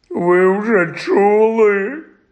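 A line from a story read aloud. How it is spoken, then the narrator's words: Groaning. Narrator (Ukrainian): простогнав він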